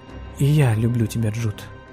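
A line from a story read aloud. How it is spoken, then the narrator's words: Quiet reply. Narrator (Russian): тихо ответила Анна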